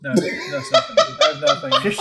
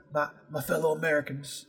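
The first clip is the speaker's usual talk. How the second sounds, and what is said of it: Attempted Texan-accented presidential impression. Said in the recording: “can you do a W impression? ... No, I can't do a Texas accent.”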